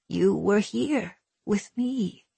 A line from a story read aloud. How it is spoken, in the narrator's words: her mamma said gently